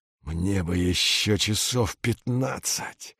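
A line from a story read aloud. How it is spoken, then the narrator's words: Mumbling. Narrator (Russian): бормочет Витька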